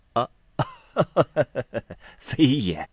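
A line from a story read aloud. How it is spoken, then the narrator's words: Laughing. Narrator (Chinese): 士隐笑道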